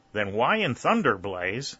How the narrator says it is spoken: exclaimed Whitley

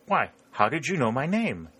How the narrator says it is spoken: exclaimed the man in wonder

